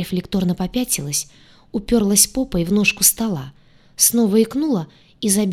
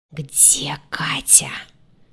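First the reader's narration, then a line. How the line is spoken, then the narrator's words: Angry hissing whisper. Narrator (Russian): выдал свистящим злым шепотом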